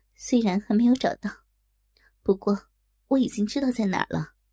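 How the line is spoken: Slight smile. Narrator (Chinese): 妙芳姐微微一笑

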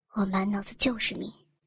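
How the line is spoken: Low voice. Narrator (Chinese): 我压低声音

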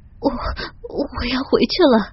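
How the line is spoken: Shy, trembling voice. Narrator (Chinese): 我一下子羞红了脸，声音颤抖着说

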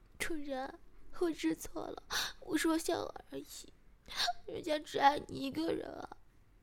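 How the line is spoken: Crying in pain. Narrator (Chinese): 被人打的疼了，马上哭着说

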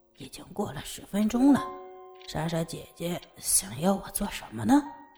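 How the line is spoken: Murmuring to himself. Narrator (Chinese): 小俊喃喃自语

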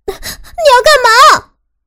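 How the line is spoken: Involuntary scream. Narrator (Chinese): 我失声大叫

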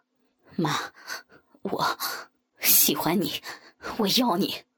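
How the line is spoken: Panting heavily. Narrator (Chinese): 小鹏喘着粗气说

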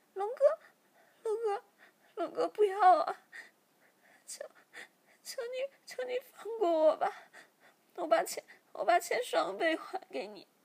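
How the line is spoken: Crying, pleading. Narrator (Chinese): 小喵马上哭着说

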